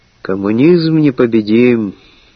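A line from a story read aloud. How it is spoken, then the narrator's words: Sigh. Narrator (Russian): вздохнул Антон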